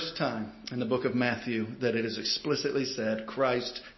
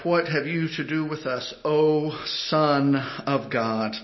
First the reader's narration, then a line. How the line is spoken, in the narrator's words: they cried out